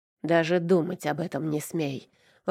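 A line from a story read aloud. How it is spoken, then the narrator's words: Growled. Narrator (Russian): рыкнул он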